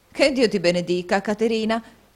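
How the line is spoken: Lively exclamation. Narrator (Italian): esclamò la signora Nickleby con la sua solita vivacità

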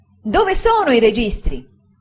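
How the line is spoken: Frightful exclamation. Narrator (Italian): esclamò con una spaventevole espressione

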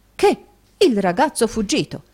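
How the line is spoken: Exclaimed. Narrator (Italian): esclamò Snowley

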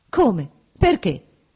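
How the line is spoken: Quick exclamation. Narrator (Italian): esclamò rapidamente

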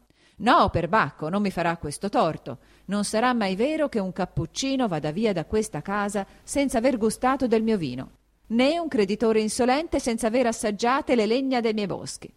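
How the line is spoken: Raised voice shouting over commotion. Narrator (Italian): don Rodrigo, alzando la voce, in mezzo al trambusto che era ricominciato, gridava

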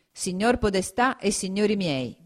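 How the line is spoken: Plain. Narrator (Italian): disse poi

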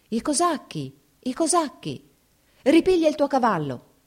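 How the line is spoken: Shouting woman. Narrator (Italian): gridò la cantiniera

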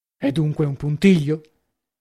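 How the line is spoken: Low voice. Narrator (Italian): aggiunse a bassa voce

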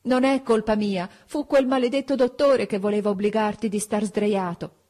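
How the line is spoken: Sobbing shout like punished child. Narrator (Italian): Piangendo, proprio come un bambino punito, gli gridai nell'orecchio

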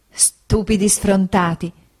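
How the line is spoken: Laughing exclamation. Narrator (Italian): esclamò mia madre ridendo

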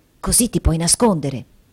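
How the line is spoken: Added under breath. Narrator (Italian): aggiungendo sottovoce

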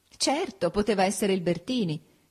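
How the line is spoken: Laughing. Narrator (Italian): disse Ada ridendo

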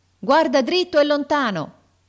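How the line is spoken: Officer's shout. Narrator (Italian): gridò l'ufficiale

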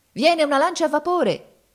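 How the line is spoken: Alarmed shout. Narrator (Italian): gridava uno di noi avvistando il nemico a distanza

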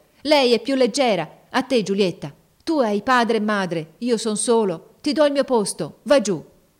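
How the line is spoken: Shout in altered voice. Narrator (Italian): Mario, con una voce che non parea più la sua, gridò

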